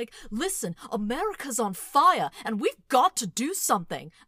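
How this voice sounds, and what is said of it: Imitates another person's voice, angry rant. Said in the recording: “Can you do a little John Oliver impression for the people? ... he'll get like really angry”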